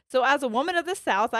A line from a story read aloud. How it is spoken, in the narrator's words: I shout to them